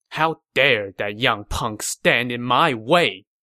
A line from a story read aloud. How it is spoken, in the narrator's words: Liu Bei said angrily